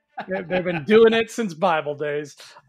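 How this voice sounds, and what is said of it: Jazzy-rhythm celebrity voice impression. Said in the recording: “your Jeff Goldblum accent is good. You got the right rhythm because he's a very jazzy guy”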